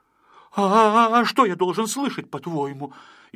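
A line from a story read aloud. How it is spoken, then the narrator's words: Frightened, wary question. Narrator (Russian): испуганно насторожился Пончик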